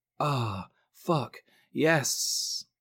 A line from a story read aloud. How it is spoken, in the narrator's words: Jess moaned, partly in pleasure